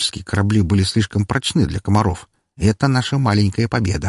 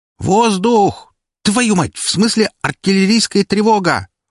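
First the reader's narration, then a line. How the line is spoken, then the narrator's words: Shouting. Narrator (Russian): закричала Серпента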